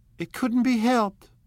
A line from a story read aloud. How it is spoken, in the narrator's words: cried Daisy, with tense gaiety